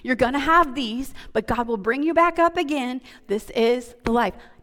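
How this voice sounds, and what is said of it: Slips into a southern twang. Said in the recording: “Did I just do a southern twang right there?”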